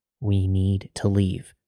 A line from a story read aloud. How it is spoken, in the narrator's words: My friend quietly but sternly said